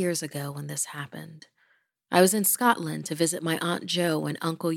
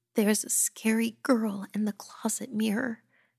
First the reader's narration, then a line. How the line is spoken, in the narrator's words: she whimpered